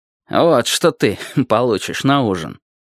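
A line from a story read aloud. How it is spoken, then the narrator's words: Grim smirking. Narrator (Russian): сказал он, мрачно усмехаясь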